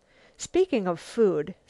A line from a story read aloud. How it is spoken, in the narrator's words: said Marian